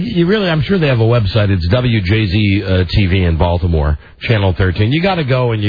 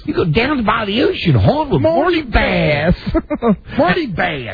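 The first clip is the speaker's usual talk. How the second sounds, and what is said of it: Thick Baltimore accent imitating Marty Bass. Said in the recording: “Marty Bass has the most Baltimore accent. ... That you could ever have here.”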